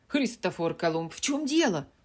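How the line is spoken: Exclamation. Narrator (Russian): воскликнула Джо

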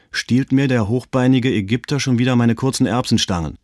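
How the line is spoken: Calling out, clapping. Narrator (German): rief Erich, in die Hände klatschend

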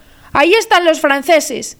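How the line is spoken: Terrified exclamation. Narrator (Spanish): el molinero exclamó aterrado

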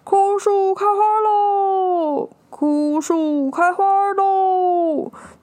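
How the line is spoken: Old man shouting louder, joyful. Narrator (Chinese): 老公公看到国王这么开心 更大声的喊说

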